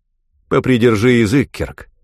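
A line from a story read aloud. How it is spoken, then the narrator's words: Stern. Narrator (Russian): строго сказал Изон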